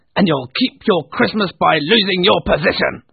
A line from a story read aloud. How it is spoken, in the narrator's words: barked Scrooge to his clerk